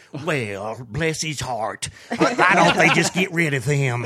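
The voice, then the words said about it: Southern drawl. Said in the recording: “my mom's got this Southern drawl”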